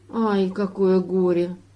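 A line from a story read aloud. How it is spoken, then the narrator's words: Sighing. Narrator (Russian): вздохнул жаворонок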